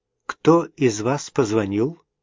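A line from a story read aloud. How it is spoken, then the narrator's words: Calm inquiry. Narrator (Russian): спокойно поинтересовалась она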